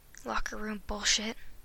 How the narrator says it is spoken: he mumbled

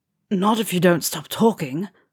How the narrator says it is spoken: Ron growled

